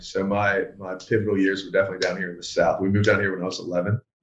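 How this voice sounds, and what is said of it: Mixed accent with Carolina Southern tinge. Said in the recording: “I feel like I hear it in the voice too. Like it, it, it has like a Carolina thing to it ... my accent is a bit muddled ... mine is very confused”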